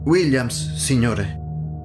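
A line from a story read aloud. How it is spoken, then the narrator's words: Plain, boy. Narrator (Italian): disse l'altro ragazzo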